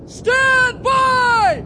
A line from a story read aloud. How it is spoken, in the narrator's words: He shouted